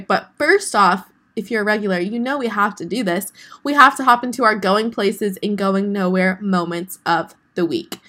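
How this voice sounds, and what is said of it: Sick, sore-throated voice. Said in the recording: “My going nowhere moment is that I am sick. If you guys can hear it in my voice ... I have a horrible sore throat and a really bad cough”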